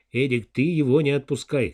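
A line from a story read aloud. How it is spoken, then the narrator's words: Shouted after someone. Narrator (Russian): крикнул Данилов вдогонку стажеру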